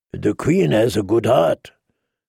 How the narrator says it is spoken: Dario purred through his deep purple whiskers

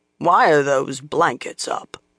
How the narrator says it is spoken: a sour voice demanded gruffly

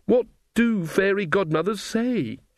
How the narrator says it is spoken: She wailed

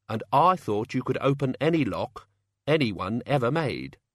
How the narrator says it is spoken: said Tea Time

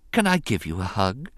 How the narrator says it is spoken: she asked him softly

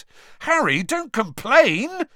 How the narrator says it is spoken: Ron yelled excitedly

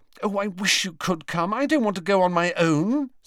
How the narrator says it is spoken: said Hermione anxiously

